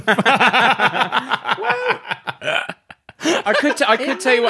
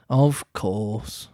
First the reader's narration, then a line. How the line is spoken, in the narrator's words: the dodo replied very gravely